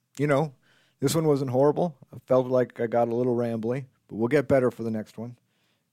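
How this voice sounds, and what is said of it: Hoarse, strained voice. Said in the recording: “Oh my God, I'm losing my voice. I've only been doing this for 30 minutes.”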